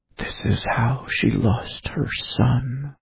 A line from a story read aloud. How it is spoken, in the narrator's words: Watson whispered